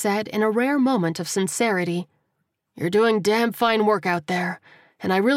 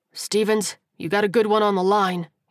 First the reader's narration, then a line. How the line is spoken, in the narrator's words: he said, allowing his voice to become jovial